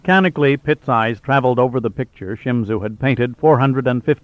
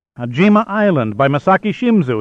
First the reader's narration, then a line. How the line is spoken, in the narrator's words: he burst out triumphantly